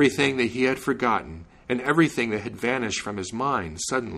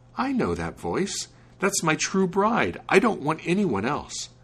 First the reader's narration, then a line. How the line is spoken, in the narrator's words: he jumped up and exclaimed